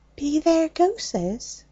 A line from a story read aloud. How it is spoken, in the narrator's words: she whispered